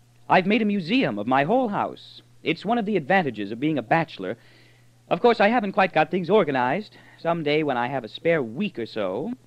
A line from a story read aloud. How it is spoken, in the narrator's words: Earth said happily